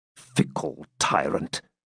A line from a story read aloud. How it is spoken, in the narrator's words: muttered De Bracy